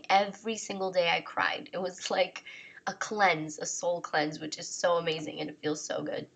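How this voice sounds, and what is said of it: Voice worn from crying. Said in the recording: “as you guys may hear in my voice, I spent an entire month crying”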